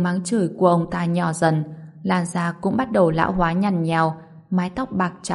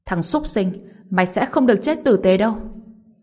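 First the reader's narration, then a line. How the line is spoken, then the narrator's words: Screaming. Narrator (Vietnamese): Ngụy Thanh Phu gào lên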